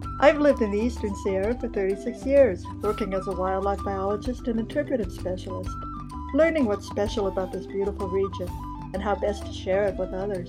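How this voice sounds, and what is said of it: Distinctive accent. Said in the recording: “my distinctive accent”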